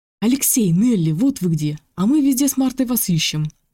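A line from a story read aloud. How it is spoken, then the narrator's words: Joyful, pleased. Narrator (Russian): радостно сказал Игнат, довольный тем, что отыскал сразу их обоих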